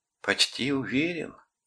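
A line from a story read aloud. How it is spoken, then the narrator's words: Soft, pleased, childlike. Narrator (Russian): повторил он мягким и довольным голосом потревоженного ребенка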